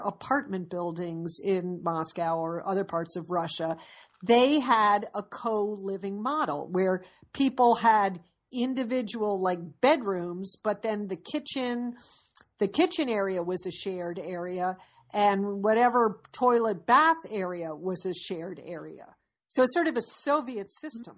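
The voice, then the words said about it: Disdainful tone. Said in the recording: “there's such disdain in your voice ... You hear it in my voice?”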